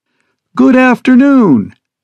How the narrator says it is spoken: she chirps resoundingly over the speakers

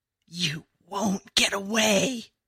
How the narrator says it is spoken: Sky, but the terrible Sky, with the crazy rabbit-whispering voice, raspy and broken, as if he'd screamed his real self away

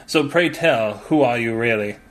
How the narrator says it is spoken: Dupin sighed

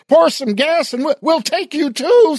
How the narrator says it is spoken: someone yelled

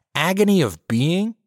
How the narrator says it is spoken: she scoffed

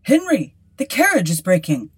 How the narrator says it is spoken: cried

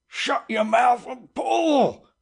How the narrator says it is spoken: roared the captain

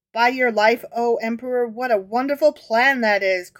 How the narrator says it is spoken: cried Rabbi Tanum

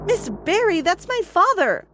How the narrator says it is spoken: I exclaimed

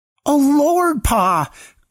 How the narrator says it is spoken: cried Samson

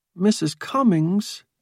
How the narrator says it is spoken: Mike Foster pleaded

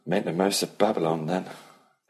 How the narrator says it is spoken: Ellie said dryly

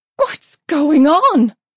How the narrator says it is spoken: she shouted in a panicky voice

